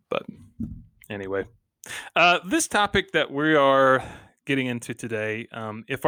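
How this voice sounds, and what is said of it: Usual voice. Nothing is said of it.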